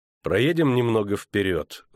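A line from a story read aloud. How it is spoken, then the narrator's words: Cold. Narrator (Russian): холодно сказал он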